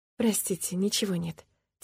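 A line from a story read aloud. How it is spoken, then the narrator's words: Quiet. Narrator (Russian): тихо произнесла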